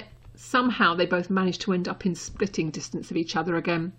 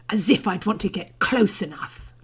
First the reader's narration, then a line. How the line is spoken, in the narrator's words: Draco hissed